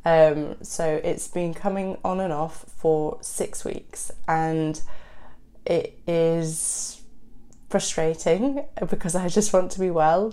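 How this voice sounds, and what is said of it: Congested voice from a cold. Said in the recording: “I am sick... I have a cold”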